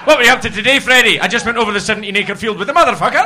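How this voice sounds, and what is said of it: Scottish Perthshire accent. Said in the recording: “I'm very aware of my accent because I was brought up in Perthshire ... it sounds like an agricultural process”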